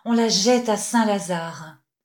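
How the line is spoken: Murmuring. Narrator (French): murmura-t-il

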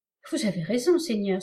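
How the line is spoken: Exclaiming. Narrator (French): s'écria Laïdine

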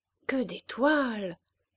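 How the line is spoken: Murmuring priest. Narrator (French): murmura l'abbé Jouve

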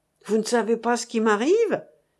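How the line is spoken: Exclaimed. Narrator (French): s'écria M

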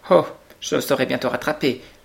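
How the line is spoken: Quick reply. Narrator (French): répondit vivement Ernest

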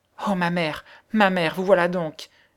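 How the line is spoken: Exclaiming. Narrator (French): s'écria-t-elle

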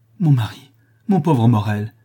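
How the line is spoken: Woman crying out. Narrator (French): s'écria la femme du lapidaire

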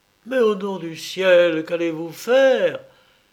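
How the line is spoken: Anguished cry. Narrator (French): s'écria Poltavo, comble de l'angoisse

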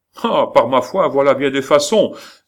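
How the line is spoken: Man exclaiming, aiming. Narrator (French): s'écria en mettant en joue le roi, l'homme dont le fusil avait déjà raté

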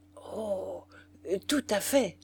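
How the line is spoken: Choked stammer. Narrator (French): balbutia-t-il, étranglé encore

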